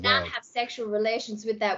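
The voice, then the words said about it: Put-on American accent. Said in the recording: “That's as good as my American accent gets. ... It is so good.”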